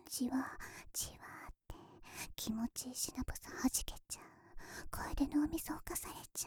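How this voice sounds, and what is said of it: Close whispering into the ear. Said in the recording (Japanese): “私たちのささやきが、お耳からずるーんって、中に入り込んじゃいますね。...こんなに近くでささやかれたら”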